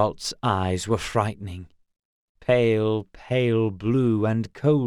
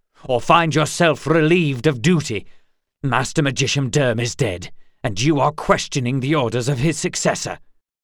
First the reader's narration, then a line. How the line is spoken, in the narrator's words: snapped Geralt